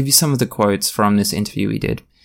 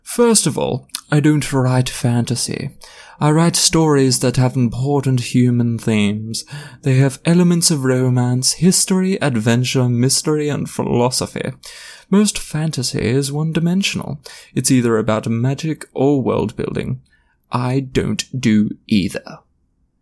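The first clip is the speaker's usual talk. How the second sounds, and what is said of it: Posh accent. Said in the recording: “I'm going to read it in a really posh accent”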